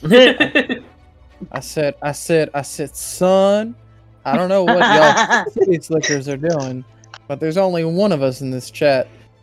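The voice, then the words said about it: Put-on southern accent. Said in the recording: “that has a true southern accent”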